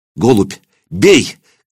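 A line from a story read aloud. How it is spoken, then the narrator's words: Shouted into horse's ear. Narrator (Russian): крикнул он на ухо жеребцу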